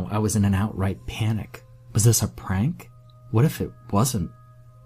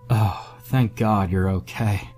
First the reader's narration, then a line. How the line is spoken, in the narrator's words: breathed a sigh of relief